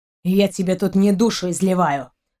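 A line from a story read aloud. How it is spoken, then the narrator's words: Angry, through clenched teeth. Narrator (Russian): Зло процедил сквозь зубы Рианец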